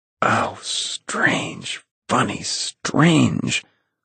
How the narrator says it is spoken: whispered Tom

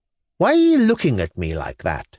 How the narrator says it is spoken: exclaimed the young man, with vexation

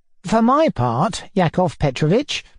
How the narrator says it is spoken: answered warmly

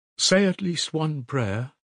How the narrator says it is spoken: Sonya begged in a timid, broken voice

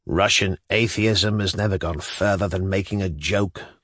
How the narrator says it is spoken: growled Shatov

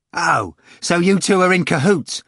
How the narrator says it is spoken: Ivan cried, growing angry

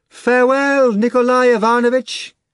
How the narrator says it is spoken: Margarita shouted

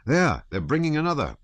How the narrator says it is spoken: cried one of the officers

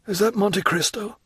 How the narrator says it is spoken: asked the traveller, in a melancholy voice

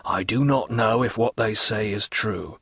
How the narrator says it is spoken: said, lowering his voice

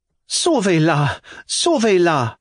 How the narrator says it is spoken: cried Alphonsine

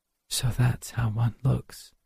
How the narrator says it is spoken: she whispered

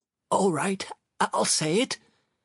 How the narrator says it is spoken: Sharikov replied in a hoarse voice, totally defeated

